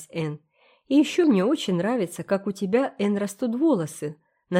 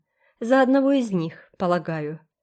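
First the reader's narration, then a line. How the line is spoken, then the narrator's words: Sigh. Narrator (Russian): вздохнула Фил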